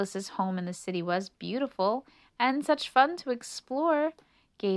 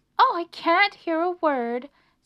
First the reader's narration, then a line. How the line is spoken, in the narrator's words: screamed Melissa